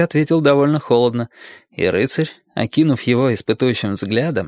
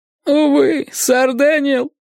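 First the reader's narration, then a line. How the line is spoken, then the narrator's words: Moaning. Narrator (Russian): простонал он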